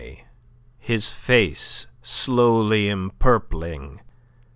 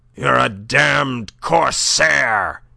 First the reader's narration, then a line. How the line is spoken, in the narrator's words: he cried thickly